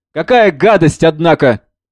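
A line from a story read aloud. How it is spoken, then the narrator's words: Loud and excited. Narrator (Russian): Жанна, громко и возбужденно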